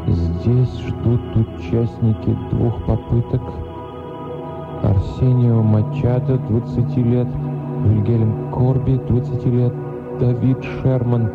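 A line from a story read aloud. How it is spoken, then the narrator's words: Whispered reading. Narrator (Russian): девушка прочла шепотом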